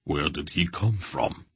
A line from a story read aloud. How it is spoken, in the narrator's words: asked, his rumbling voice also subdued